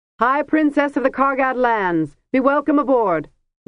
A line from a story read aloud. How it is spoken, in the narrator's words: Labanon said in a ringing voice